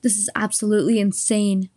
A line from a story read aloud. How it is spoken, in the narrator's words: Mary said, raising her voice